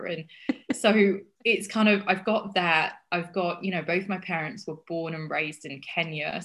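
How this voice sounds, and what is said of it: Mixed hybrid English accent. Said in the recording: “this odd accent because I've lived in Australia and I've lived in America and I've lived in England and I'm from Yorkshire ... this weird hybrid voice that I have”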